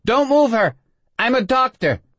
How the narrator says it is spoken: she heard someone shouting

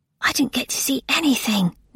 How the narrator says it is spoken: Nona whispered

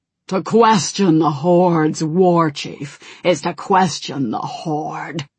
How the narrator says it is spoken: growled Malkorok

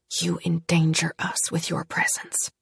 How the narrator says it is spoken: whisper, she said

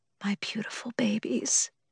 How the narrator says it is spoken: she whispered

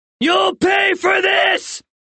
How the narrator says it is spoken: John yelled

